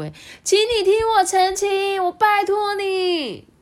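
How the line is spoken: Loud clamoring. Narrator (Chinese): 和李太太不停的大声叫嚷啊

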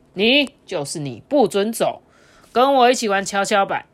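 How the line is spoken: Child's loud command. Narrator (Chinese): 这个小男孩大声的命令他说

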